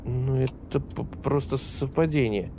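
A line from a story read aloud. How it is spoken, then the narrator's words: Muttered. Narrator (Russian): пробормотал Жан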